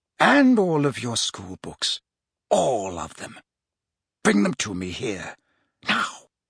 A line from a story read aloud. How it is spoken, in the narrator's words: said Snape softly